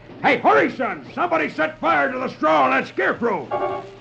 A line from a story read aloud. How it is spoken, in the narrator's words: hears one shout